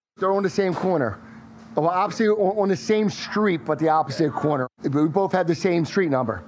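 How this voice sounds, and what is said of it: Strong, harsh South Philly accent. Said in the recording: “I really got a hard accent ... my South Philly accent's really, really harsh”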